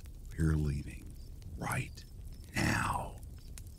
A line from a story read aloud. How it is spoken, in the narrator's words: My dad whispered